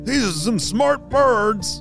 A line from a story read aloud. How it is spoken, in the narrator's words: Zookeeper George yelled